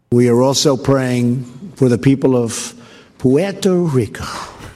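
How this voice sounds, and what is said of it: Affected accent pronouncing Puerto Rico. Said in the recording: “He says Puerto Rico with an affected accent ... Trying to pronounce Puerto Rico as if he has some affinity for Puerto Rico”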